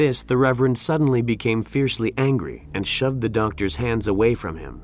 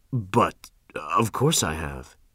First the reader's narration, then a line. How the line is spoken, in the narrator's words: he stammered